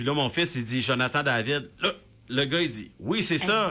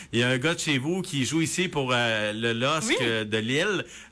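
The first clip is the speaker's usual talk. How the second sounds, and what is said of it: Imitated French vendor's accent. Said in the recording (French): “Bon, je recommence avec l'accent.”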